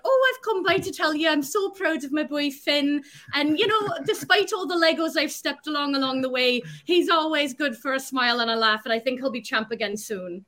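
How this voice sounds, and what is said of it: Good Irish accent, imitated woman. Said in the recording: “she's Irish ... that's pretty good accent.”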